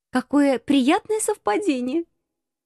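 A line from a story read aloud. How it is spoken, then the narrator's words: Irrepressible giggle. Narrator (Russian): хихикнула я, не удержавшись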